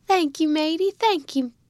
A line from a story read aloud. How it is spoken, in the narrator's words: cried Jack, dashing a tear out of his eye